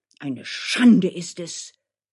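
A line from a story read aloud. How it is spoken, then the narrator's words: Wild shouting. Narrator (German): schrie Dmitri noch wilder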